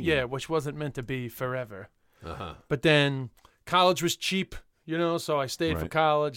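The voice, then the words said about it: New York accent. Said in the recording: “I'm from Queens ... an Irish comedian with a New York accent”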